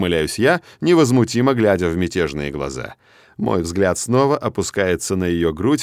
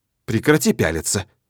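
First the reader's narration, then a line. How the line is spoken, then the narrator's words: Angry. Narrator (Russian): сердито говорит Мелания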